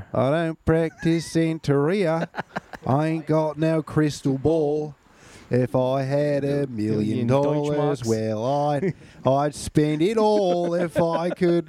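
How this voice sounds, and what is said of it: Singing in put-on Australian accent. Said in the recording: “Sing it in an Australian accent is way better. ... Australian Sublime.”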